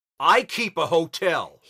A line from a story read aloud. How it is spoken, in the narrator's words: he shouted